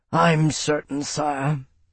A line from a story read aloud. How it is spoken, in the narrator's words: Bernard rumbled